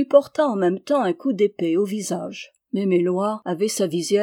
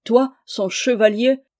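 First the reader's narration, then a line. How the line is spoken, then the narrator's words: Furious exclamation. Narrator (French): s'écria Aubry furieux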